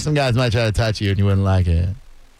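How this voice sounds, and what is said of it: Imitates another person's voice. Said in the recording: “my Tony impression ... when you're doing Tony”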